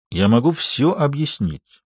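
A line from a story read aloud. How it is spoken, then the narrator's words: Calm. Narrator (Russian): спокойно произнес он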